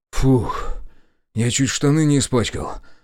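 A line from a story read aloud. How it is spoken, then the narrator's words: Relieved exhale. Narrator (Russian): выдохнул я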